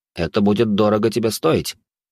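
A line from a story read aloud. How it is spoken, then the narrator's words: Dark entity's smirking grunt. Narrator (Russian): хмыкнула темная сущность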